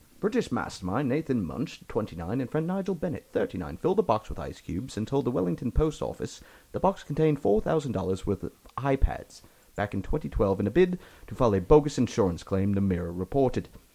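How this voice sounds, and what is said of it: Old-timey British accent. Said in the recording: “Slip into a shitty accent ... Do Downton Abbey British accent. To make it old-timey British ... I feel like I'm listening to BBC right now ... It's really good.”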